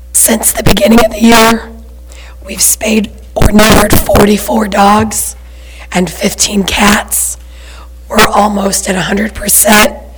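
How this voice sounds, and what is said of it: Hoarse, nearly lost voice. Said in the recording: “I've lost my voice, so this is terrible.”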